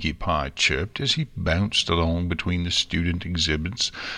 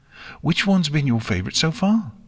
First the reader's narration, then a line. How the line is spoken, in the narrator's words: Pinky asked excitedly